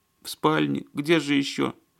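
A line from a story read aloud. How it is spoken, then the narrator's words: Sobbing reply. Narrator (Russian): Всхлипывая, ответила хозяйка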